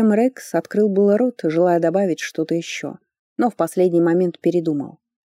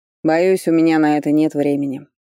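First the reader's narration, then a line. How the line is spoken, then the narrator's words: Curt mutter. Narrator (Russian): буркнул Фарлей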